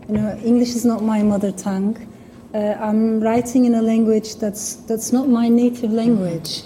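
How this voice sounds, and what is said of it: Non-native English accent. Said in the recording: “as you can hear in my accent, the words I can never pronounce properly”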